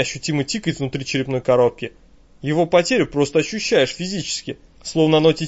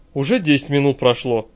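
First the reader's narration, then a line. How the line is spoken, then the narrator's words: Lifeless rustling voice. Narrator (Russian): Мертвым голосом шелестит рядом Саша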